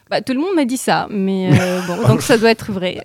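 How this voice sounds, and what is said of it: Slight Italian accent in French. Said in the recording (French): “Un petit accent. ... Apparemment italien.”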